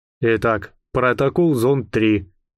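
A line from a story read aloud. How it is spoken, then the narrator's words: Even commanding voice. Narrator (Russian): ровным голосом скомандовал Александр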